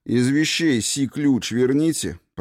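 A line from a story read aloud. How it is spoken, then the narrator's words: Grumbling mutter. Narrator (Russian): пробурчал он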